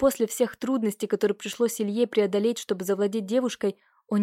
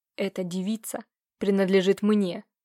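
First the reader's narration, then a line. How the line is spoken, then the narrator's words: Hiss. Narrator (Russian): Прошипел незнакомец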